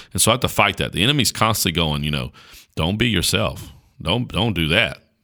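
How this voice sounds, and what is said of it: Rural North Carolina Southern accent. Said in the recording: “I talk like a country bumpkin from Caswell County, North Carolina ... you got this accent”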